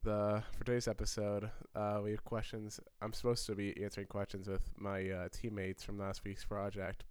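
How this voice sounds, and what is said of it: Sick, rough-sounding voice. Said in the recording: “I'm a little sick, so my voice is a little, bad”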